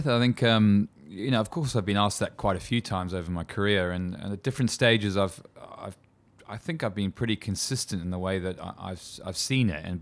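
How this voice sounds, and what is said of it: South African accent. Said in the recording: “I grew up in South Africa, as you can probably tell from my horrible twang in my voice”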